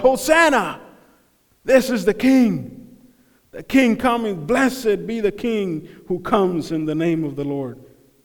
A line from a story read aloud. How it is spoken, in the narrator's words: The stones were going to scream out